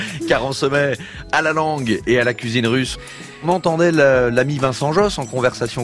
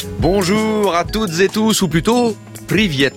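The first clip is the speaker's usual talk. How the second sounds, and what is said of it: Put-on Russian accent, rolled R. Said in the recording (French): “Est-ce que ça va mon accent ou pas? ... On peut rouler un peu le R, c'est ça? ... On peut faire mieux, ouais.”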